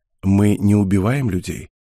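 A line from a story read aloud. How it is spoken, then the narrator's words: Soft, smiling. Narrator (Russian): мягко улыбнулась Харита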